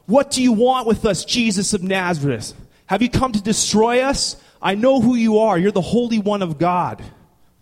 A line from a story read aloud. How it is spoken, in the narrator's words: A demon-possessed man starts to yell